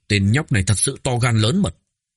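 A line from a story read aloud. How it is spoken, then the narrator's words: Angry. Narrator (Vietnamese): Thiên quân Kinh Thu Diệp tức giận nói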